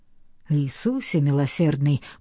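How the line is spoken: Mutter. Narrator (Russian): пробормотал Карл

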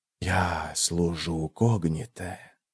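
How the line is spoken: Corpse whispering. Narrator (Russian): прошептал труп

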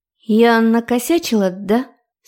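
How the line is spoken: Sad question. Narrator (Russian): спросила грустно

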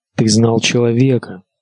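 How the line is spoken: Plain. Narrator (Russian): сказала она

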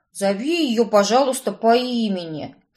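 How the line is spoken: Snorted. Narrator (Russian): фыркнул жених

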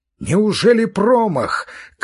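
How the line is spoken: Shout. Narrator (Russian): крикнул Степан Аркадьич

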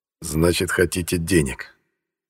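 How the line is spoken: Thoughtful, through gritted teeth. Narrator (Russian): Процедил, задумчиво

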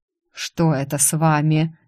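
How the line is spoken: Displeased grumbling teacher. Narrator (Russian): недовольно проворчал учитель Ирвин

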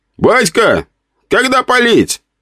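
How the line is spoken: Young man shouting. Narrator (Russian): выкрикнул кто-то из молодых

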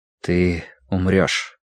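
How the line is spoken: Quiet. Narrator (Russian): тихо произнес Тай

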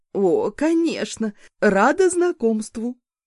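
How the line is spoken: Friendly exclamation. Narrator (Russian): воскликнула соседка

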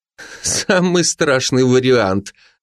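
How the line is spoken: Mocking agreement. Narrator (Russian): насмешливо согласилась Маша

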